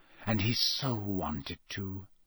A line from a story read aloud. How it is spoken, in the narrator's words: whispered Moody